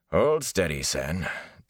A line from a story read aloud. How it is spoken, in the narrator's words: Tam growled